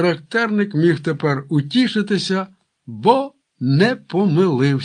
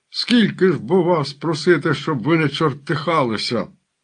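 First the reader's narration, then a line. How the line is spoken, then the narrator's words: Groaning in exasperation. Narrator (Ukrainian): Аж застогнав доведений до вічаю неправедною лайкою козацької молоді Омелько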